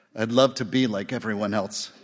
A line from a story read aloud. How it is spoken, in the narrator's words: said Ebling